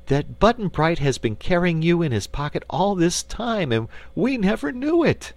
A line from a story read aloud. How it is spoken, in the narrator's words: cried Dorothy